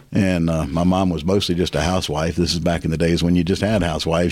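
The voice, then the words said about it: Slight Southern American accent. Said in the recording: “I still have a little bit of Southern in my accent”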